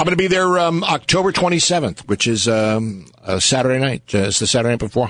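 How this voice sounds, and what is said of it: Usual voice. Nothing is said of it.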